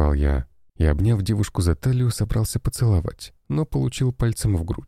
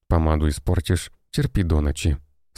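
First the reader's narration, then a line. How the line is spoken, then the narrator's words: Stern. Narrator (Russian): строго заявила жена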